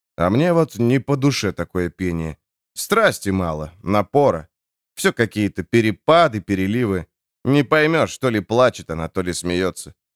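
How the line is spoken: Low undertone. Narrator (Russian): сказал Харману вполголоса

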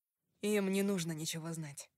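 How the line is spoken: Plain. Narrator (Russian): сказал Дрю

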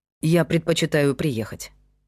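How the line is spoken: Plain. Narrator (Russian): сказал Павел

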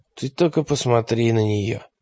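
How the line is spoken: Mutter. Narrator (Russian): пробормотал он

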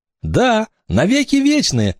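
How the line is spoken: Joyful admission. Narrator (Russian): радостно призналась Оля

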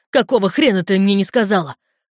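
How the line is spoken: Barking. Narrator (Russian): рявкнул

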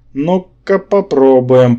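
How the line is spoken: Grumbling. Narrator (Russian): проворчал я

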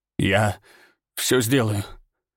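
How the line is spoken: Strained. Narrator (Russian): выдавил он

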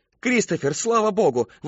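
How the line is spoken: Exclamation. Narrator (Russian): воскликнула Мэри Кэтрин

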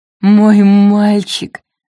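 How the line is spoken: Strained, forced out. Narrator (Russian): выдавила Поппи

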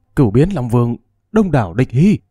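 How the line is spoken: Shocked cry. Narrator (Vietnamese): toàn thân chấn động, thất thanh kêu lên

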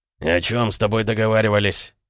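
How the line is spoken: Hoarse male voice. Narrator (Russian): раздался хриплый мужской голос

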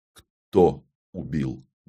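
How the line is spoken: Muffled question. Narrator (Russian): глухо спросил я

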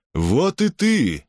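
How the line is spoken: Exclaiming. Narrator (Russian): воскликнул Эфиальт

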